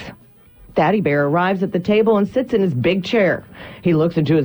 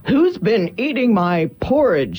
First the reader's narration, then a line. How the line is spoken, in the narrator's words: roars